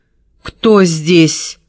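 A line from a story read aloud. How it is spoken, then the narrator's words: Shout trembling with fear. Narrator (Russian): снова крикнула голос ее дрогнул от страха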